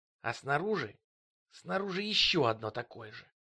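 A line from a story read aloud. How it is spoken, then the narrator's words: Hiss. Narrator (Russian): прошипел он через плечо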